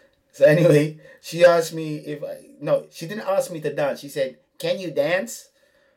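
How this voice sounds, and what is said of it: Usual voice. Nothing is said of it.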